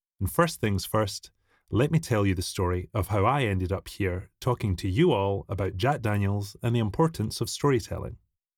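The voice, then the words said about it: Scottish accent. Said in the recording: “From anyone that can pick up on my accent, I'm not from Lynchburg, Tennessee ... out in the sticks of Scotland”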